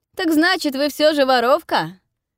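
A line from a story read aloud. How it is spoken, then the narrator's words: Shouted, smiling. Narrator (Russian): крикнул вслед и улыбнулся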